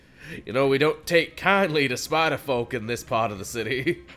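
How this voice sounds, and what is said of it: Put-on Southern sheriff accent. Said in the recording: “talking like a Southern sheriff”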